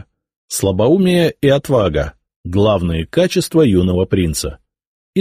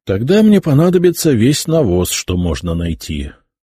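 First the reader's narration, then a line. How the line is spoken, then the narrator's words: Sigh. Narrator (Russian): вздохнул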